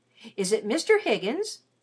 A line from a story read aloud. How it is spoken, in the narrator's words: exclaimed